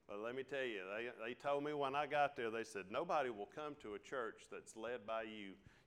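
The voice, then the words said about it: Southern country drawl. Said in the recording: “I had a country draw ... I'm from the country. This is as down home as you can get ... My accent is me ... you can't take hillbilly out of this”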